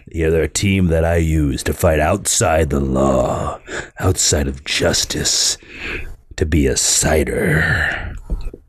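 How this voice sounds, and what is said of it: Imitates Batman's voice. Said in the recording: “I'm trying a new Batman voice.”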